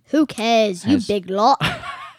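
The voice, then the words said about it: Attempted Australian accent, sounds British. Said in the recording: “Now you just sound like Ronald Weasley. You don't sound Australian.”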